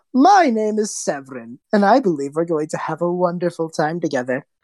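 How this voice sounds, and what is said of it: Distinct character voice. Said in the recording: “His voice just completely changes with the mask.”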